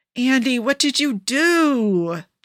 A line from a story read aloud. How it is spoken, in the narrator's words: Joe whines